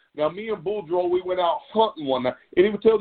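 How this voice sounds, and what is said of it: Usual voice. Nothing is said of it.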